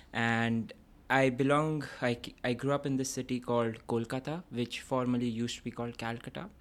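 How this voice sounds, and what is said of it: Indian accent. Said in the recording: “So I come from India, as you can probably say from my accent”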